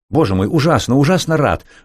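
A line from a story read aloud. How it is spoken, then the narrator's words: Rapid speech from a distance. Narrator (Russian): быстро заговорил он еще с середины лестницы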